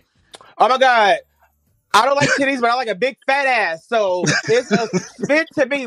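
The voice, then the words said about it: Imitates another person's voice. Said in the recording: “I'm impersonating Mauricio”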